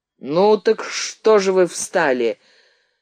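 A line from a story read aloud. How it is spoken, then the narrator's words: Deep rolling voice. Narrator (Russian): глубоко раскатистым голосом сказал вожак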